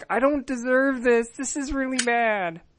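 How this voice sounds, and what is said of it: Impression of Ted, whiny voice. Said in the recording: “my impersonation of Ted”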